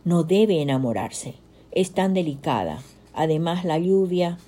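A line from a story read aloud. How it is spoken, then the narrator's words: Sigh. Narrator (Spanish): suspiró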